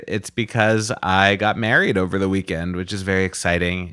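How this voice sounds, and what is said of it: Tired voice with yawns. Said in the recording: “If I sound tired ... Excuse my yawns.”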